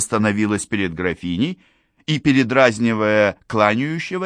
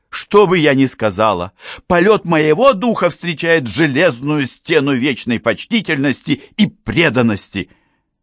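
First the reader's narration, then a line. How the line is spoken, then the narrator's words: Sincere laughter. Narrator (Russian): Графиня искренне рассмеялась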